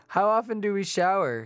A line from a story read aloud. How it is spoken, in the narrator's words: He asked eagerly